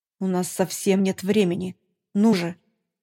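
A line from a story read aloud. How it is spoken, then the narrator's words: Growled. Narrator (Russian): прорычал Акзиф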